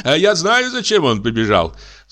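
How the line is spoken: Count laughing. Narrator (Russian): засмеялся граф

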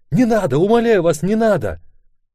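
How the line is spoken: Scream. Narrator (Russian): закричала

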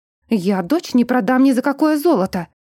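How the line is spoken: Indignant exclamation. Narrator (Russian): воскликнула Диен от возмущения

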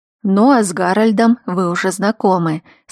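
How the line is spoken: Bored tone. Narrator (Russian): скучающим тоном закончил Кайден

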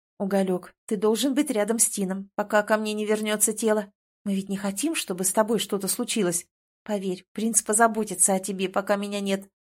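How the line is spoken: Whispered. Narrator (Russian): шептала

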